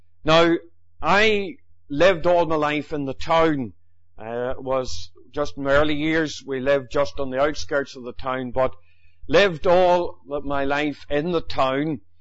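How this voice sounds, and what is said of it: Northern Irish Fermanagh accent. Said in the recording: “I was born in Enniskillen, County Fermanagh. You know by the accent that's where I come from.”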